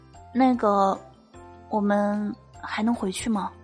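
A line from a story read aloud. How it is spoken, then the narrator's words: Soft voice. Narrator (Chinese): 他就轻声的对我说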